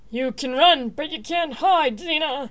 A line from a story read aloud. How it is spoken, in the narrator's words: Toxius yelled at the rapidly retreating form